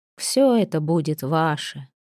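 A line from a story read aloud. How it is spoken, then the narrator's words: Weary murmuring. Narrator (Russian): устало приговаривал Бергвит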